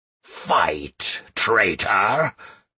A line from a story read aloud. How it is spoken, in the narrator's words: growled Almas